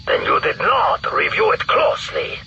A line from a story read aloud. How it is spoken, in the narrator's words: the Fresh snarled